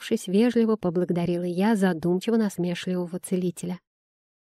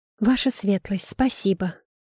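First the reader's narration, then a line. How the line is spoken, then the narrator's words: Quiet. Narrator (Russian): тихо произнесла я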